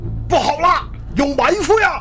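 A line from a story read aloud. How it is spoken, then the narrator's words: Loud shout. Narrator (Chinese): 他高声喊着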